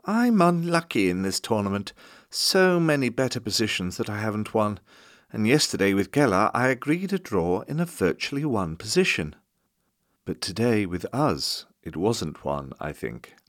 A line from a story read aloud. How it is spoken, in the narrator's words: Tal remarked timidly